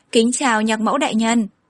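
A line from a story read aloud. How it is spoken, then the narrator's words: Awkward cough, smiling. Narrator (Vietnamese): Phạm Nhàn có chút không được tự nhiên ho một tiếng, mỉm cười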